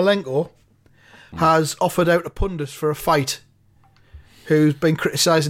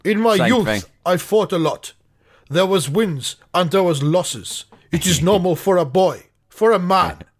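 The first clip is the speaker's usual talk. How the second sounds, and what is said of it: Put-on Ukrainian accent. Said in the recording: “I don't know if I can do a Ukrainian accent here, like ... Just do Russian.”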